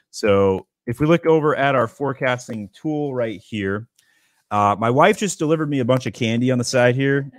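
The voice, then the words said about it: Raspy voice from a cold. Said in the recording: “my voice is super raspy. ... I'm under the weather with a cold.”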